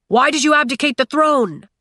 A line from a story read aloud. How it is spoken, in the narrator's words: someone yelled